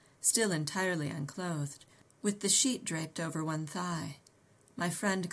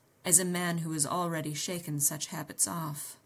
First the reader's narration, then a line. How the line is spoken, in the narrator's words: he surmised icily